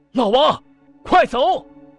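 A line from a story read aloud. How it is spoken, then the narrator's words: Shouting. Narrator (Chinese): 梁来福一大早就在王李家院门口大喊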